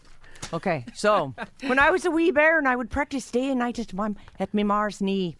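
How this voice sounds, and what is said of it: Put-on Irish accent, not bad. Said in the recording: “your Irish accent ... my incredible talents as an Irish woman ... You're not doing too bad. Normally people sound like a pirate over here.”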